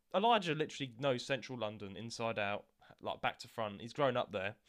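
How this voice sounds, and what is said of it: London accent. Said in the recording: “I'm from London as well... So I've got the Londoner accent”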